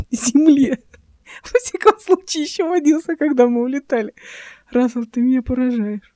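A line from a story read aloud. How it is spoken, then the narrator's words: Laughing reply. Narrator (Russian): сквозь смех ответила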